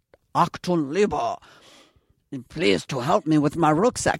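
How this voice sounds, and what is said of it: Put-on German accent. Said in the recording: “I don't do a German accent ... do you want me to work on the German accent?”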